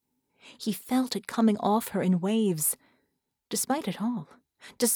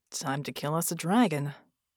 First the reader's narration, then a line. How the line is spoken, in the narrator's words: Red murmured